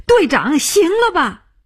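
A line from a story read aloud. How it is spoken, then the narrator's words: Crying out. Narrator (Chinese): 他叫起来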